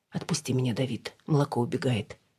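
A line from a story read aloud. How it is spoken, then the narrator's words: Even voice. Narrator (Russian): сказала ровным голосом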